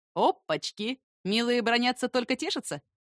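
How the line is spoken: Laughing. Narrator (Russian): Незнакомец хохотнул

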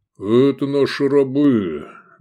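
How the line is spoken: Good-natured booming. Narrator (Russian): добродушно прогудел Гефестай

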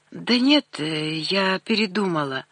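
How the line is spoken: Hoarse voice. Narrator (Russian): охрипшим голосом сказала я

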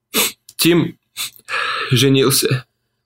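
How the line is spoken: Pained sob. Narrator (Russian): всхлипнула она, и лицо у нее исказилось от боли

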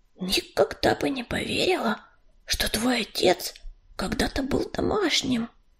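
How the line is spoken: Whispered into ear. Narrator (Russian): прошептала она на ухо Листочке

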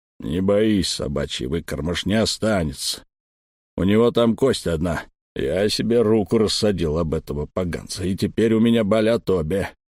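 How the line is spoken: Big man grumbling. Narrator (Russian): ворчал здоровяк

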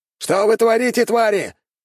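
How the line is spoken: Shouted, just arrived running. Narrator (Russian): выкрикнул офицер, примчавшийся к реке

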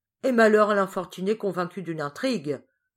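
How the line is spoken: Exclaimed. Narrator (French): s'écria la tante Hélène

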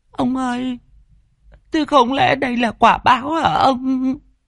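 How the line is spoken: Whimpering, near tears. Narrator (Vietnamese): Mụ mếu máo

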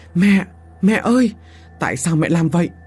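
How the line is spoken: Screaming. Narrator (Vietnamese): Phương thét lớn

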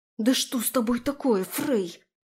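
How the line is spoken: Indignant hiss. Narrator (Russian): возмущенно прошипела я

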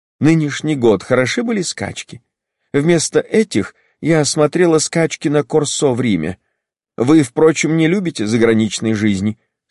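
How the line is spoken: Warm, smiling. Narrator (Russian): сказала она, ласково улыбаясь

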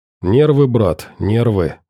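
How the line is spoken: Calm reply. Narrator (Russian): спокойно ответил Валера

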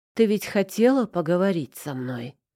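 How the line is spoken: Muffled, hollow voice. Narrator (Russian): его голос во влажной тишине подземелья прозвучал глухо

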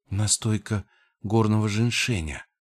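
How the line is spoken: Whisper. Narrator (Russian): прошептала она

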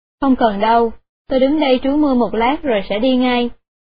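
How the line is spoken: Old woman, smiling. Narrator (Vietnamese): Bà lão mỉm cười nói

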